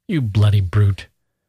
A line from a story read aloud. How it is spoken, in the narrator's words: Gusev said angrily